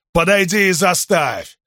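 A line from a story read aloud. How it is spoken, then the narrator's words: Big man's growled retort. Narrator (Russian): прорычал в ответ здоровяк багровее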